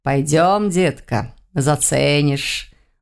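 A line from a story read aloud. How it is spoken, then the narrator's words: Purring. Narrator (Russian): мурлыкнул он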